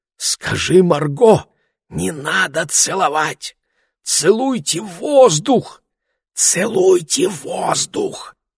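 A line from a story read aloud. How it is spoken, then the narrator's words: Desperate loud whisper, mother. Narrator (Russian): доведенная до отчаяния, мама отбросила всякую осторожность и громко зашептала мне через головы людей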